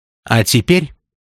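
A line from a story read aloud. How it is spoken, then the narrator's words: Businesslike tone. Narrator (Russian): исключительно деловым тоном сказала Зубкова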